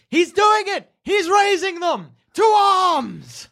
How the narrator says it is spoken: Evelyn, you hear her from down the line screaming

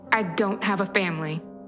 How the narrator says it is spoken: I snapped

